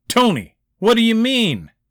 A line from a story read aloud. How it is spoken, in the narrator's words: Hauser called out